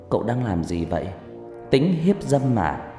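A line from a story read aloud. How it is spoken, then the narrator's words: Suspicious woman. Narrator (Vietnamese): Người đàn bà hỏi bằng giọng đa nghi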